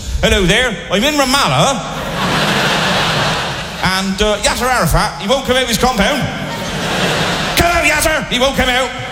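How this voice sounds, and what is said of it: Put-on West Country English accent. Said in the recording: “the West Country accent ... a West Country accent”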